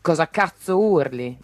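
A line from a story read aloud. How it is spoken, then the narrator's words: Grumbling. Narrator (Italian): brontolò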